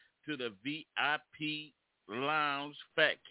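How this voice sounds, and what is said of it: Usual voice. Nothing is said of it.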